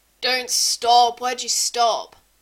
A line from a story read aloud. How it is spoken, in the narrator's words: Frank groans